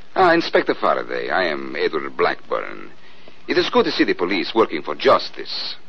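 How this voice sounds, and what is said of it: Put-on Central European accent. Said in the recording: “He talks with an accent ... Central European, maybe. ... Well, that's pretty close.”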